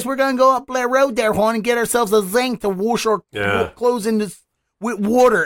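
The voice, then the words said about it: Put-on Baltimore accent. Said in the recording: “we also don't have a great accent either. Like, the Baltimore accent, like, we all sound like this.”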